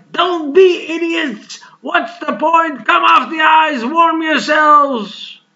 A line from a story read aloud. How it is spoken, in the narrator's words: the shivering guard shouted into the night